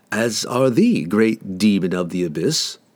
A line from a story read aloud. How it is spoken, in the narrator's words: Drizzt replied coolly